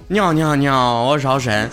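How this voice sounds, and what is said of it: Mock Beijing accent, heavy retroflex. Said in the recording (Chinese): “北京人说话吧，是嗯，就是翘舌音特别重，然后呢都粘在一起”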